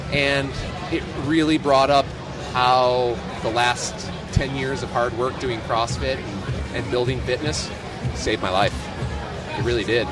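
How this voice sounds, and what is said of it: Choked-up, emotional voice. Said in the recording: “I'm even getting a little choked up thinking about it now”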